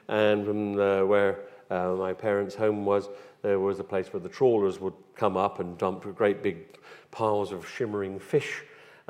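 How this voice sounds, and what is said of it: West Country English accent. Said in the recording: “As you can tell from my accent, I come from the West Country,”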